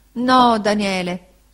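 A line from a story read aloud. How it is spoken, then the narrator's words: Moaning reply. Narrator (Italian): rispose la signora Gummidge gemendo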